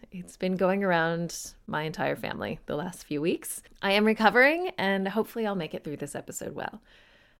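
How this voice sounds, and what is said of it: Congested voice from a cold. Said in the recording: “You may be able to tell I have a bit of a cold.”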